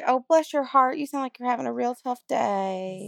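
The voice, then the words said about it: Put-on Southern American accent. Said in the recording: “I'm gonna have a lot of Southern accent going on ... you're also committing with accents.”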